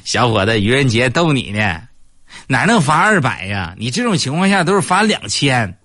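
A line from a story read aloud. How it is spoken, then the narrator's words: Laughing, policeman. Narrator (Chinese): 警察叔叔还搁那笑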